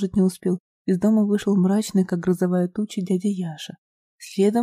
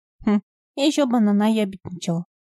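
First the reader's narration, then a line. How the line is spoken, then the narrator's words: Snort. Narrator (Russian): хмыкнул Сенька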